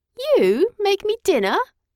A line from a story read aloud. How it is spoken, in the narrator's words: I laugh incredulously